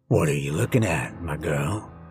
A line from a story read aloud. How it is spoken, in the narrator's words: His voice was rough and deep